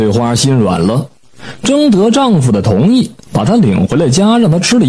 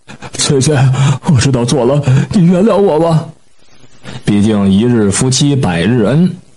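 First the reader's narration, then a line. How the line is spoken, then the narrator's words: Sobbing, pleading. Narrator (Chinese): 李英俊痛哭流涕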